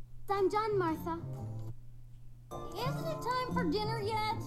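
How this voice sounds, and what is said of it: Old lady character voice. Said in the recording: “Old lady voice.”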